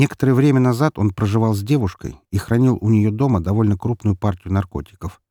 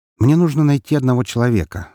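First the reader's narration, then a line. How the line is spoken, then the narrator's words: Plain. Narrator (Russian): сказал я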